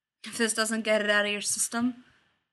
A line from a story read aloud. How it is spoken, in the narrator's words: He growled, right against Tony's jugular